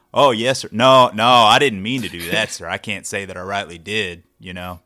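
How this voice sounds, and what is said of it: Put-on Texas accent. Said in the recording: “I can turn y'all. My Texas on when I need to”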